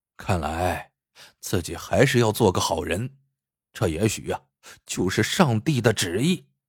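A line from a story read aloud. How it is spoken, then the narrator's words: Inward reflective sigh. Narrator (Chinese): 杰克不禁暗自感叹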